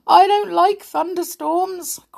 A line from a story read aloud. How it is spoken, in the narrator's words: cried, looking a little scared